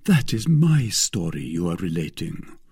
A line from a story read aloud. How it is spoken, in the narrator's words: said D'Artagnan, in his turn heaving a profound sigh